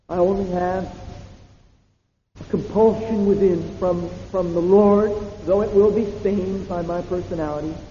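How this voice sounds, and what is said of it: American accent, loud voice. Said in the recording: “stained by an American accent. Maybe stained by a voice that's too loud.”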